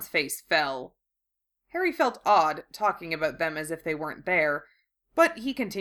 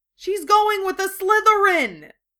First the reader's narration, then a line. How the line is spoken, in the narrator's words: Ron exclaimed